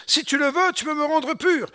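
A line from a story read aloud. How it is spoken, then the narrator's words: Leper's pleading tone. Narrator (French): un lépreux, il lui dit dans son ton suppliant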